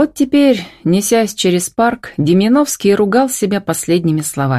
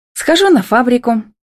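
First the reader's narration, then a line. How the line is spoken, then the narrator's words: Cheerful brush-off. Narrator (Russian): весело отмахнулась Милка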